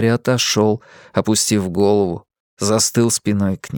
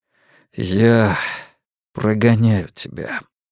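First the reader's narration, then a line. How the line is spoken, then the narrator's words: Gloomy. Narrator (Russian): мрачно ответил Стью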